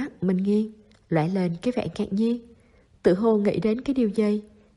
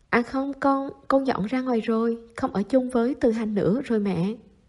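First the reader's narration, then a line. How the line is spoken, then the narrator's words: Sighing. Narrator (Vietnamese): Chu Dĩ An thầm buông tiếng thở dài nói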